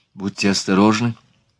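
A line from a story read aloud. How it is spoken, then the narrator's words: Whispered. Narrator (Russian): шепнула Марианна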